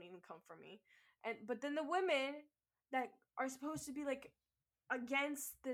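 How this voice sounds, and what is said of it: Usual voice. Nothing is said of it.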